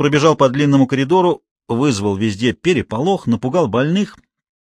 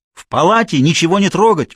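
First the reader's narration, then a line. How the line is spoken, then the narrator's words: Shouted while running. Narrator (Russian): уже на бегу выкрикнул Гуров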